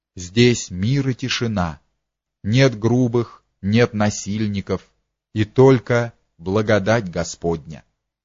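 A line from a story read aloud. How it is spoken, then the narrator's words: Quiet. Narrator (Russian): Анна тихо сказала ей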